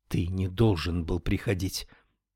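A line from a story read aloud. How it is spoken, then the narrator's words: Whispering. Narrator (Russian): прошептала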